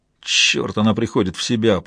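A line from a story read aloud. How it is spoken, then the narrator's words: Grumbling. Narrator (Russian): проворчал этот мужчина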